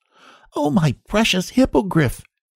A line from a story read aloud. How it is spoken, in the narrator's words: he cried